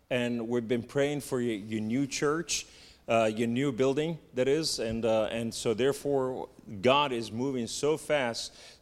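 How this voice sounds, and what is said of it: Southern American accent. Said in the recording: “that's my southern accent”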